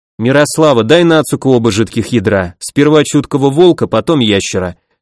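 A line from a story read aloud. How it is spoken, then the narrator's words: Calm. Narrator (Russian): спокойно сказал я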